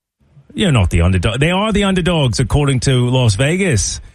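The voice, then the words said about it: Attempted Australian accent. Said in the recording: “my best try at an Australian accent.”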